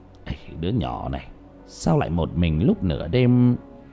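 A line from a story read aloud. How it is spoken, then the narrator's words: Muttering. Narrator (Vietnamese): lẩm bẩm trong miệng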